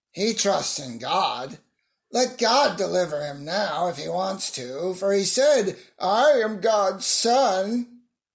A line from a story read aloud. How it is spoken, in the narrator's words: The bandits, who were crucified with him, also taunted him